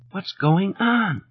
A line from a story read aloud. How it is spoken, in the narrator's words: she asked in a strengthless whisper